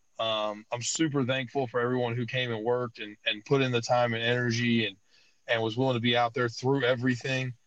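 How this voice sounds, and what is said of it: Hoarse, strained voice. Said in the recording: “as you can tell, I've lost my voice from this weekend”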